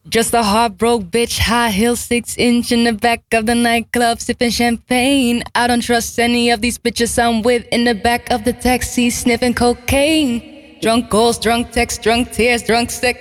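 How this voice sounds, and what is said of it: Put-on English accent, not yet convincing. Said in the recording (Dutch): “ik ga haar Engels accent na doen ... Ik moet nog werken aan mijn accent”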